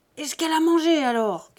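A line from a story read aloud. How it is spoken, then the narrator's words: Furious shouting. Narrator (French): criait Buteau hors de lui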